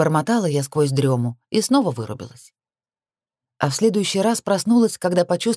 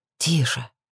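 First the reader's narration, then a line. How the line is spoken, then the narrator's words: Whisper. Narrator (Russian): Шепот Криса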